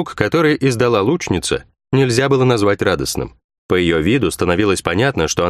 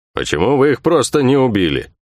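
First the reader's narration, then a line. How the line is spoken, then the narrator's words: Rough, hurt grumble. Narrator (Russian): проворчал Бух-Бух, и в его грубом голосе слышалась обида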